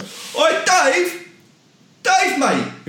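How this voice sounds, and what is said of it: Shouted imitation of another person. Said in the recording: “I can do a better impression of Dave ... I can just go ... whoever the fella is shouting after Dave”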